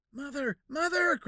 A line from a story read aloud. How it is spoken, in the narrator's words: cried Jack